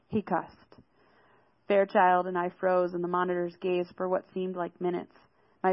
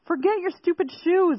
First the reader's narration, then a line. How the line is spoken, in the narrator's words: Zale yelled at her